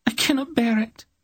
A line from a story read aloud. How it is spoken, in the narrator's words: suddenly sobbed, began to weep